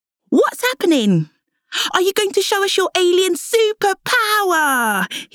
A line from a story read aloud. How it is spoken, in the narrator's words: asked excitedly